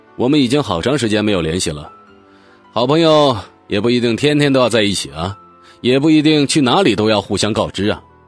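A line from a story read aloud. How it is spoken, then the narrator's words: Cold. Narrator (Chinese): 他还是冷冷的说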